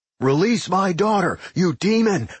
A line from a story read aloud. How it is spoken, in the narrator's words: Fred shouted